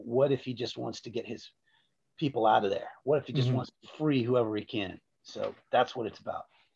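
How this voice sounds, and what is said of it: Dramatic movie-trailer narrator voice. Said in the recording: “you did it in your movie voice too ... I did it in my movie voice.”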